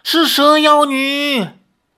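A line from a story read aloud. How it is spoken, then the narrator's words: Crowd shouting in unison. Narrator (Chinese): 拜月教众们齐声喊叫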